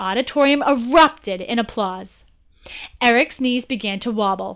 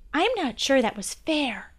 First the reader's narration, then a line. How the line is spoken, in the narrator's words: whispered